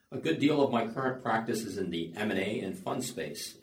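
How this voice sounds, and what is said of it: American English accent. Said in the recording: “As you can tell from my accent, I'm originally from the US”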